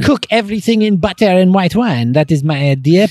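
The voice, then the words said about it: Exaggerated put-on French accent. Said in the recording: “you have a crazy French accent?”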